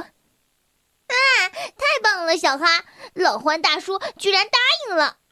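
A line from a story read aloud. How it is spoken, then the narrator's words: Beaming, laughing. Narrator (Chinese): 小薇就笑得合不拢嘴，说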